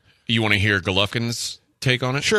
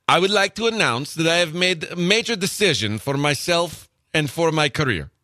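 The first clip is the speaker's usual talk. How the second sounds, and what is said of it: Put-on Russian accent. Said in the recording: “Can you do it in the Russian accent?”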